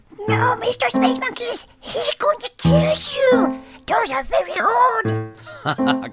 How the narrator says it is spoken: He excitedly whispered

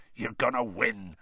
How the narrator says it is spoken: Hagrid growled

